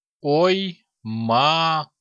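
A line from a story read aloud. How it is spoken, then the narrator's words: Stunned drawl. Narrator (Russian): ошарашенно протянул Агилви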